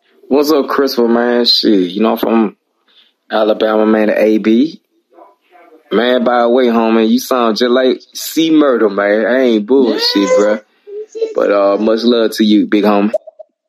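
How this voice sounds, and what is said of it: Southern Alabama accent. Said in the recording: “Southern accents ... this Alabama accent”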